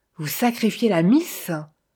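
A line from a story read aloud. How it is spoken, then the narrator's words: Indignant exclamation. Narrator (French): s'écria Jean-Louis avec indignation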